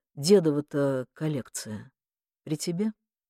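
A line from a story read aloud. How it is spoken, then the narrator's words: Quiet, deflated. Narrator (Russian): Захар обмяк и тихо произнес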